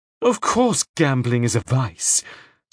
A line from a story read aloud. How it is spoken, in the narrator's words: said the widow scornfully